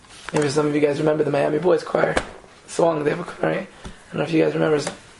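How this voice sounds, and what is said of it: Very hoarse voice. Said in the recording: “I'm very hoarse now ... Now I'm like totally hoarse from the singing”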